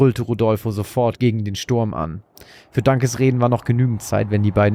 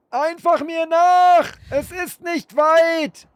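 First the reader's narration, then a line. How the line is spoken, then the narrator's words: Stranger shouting. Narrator (German): schrie der Unbekannte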